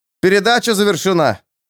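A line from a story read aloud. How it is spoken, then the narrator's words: Shouted through a screen. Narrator (Russian): Магистр крикнул через ширму второму механику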